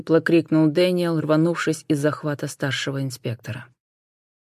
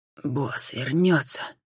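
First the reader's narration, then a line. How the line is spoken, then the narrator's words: Hoarse exhale. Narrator (Russian): хрипло выдохнул Дэниел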